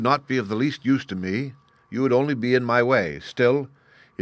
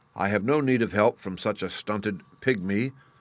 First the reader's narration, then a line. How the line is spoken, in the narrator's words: muttered the giant